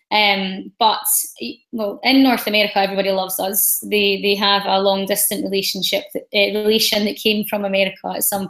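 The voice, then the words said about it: Scottish accent. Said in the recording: “as a traveling Scot ... You have an amazing accent, it's so beautiful, but some other people might not be able to understand as well”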